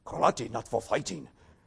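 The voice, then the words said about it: Imitated Okinawan Japanese accent, Mr. Miyagi. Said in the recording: “in my best Okinawan Japanese accent”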